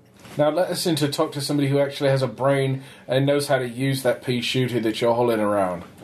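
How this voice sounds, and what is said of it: British accent. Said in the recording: “why does an alien have a British accent?”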